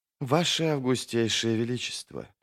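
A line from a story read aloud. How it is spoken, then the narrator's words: Quiet. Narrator (Russian): произнесла Тереза негромко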